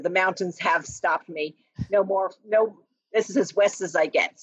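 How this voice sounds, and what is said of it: New Jersey accent. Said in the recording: “I can't get rid of the Jersey accent. ... It's sticking around.”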